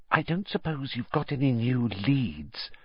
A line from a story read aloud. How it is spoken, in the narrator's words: she added in a whisper, so that Madame Pomfrey couldn't hear her